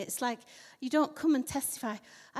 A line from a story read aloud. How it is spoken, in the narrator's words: I breathed again